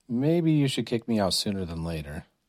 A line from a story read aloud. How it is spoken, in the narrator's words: Chris muttered